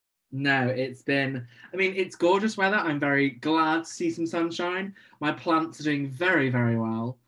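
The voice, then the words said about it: British accent. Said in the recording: “a bit of a Brit in the accent”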